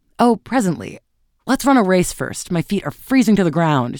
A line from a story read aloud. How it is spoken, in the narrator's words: she cried